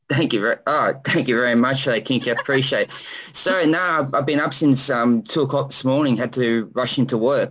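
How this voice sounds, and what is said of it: Australian accent. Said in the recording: “Down Under, Australia ... an amazing accent.”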